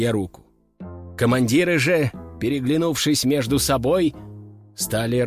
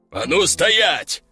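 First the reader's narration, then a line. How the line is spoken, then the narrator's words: Growl. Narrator (Russian): рыкнул Лежаков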